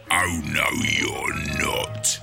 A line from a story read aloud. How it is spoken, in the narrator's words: he hissed